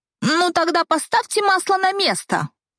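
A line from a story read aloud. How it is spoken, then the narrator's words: Scornful snort. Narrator (Russian): фыркнула продавец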